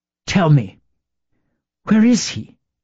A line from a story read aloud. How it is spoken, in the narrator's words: asked Isabel breathlessly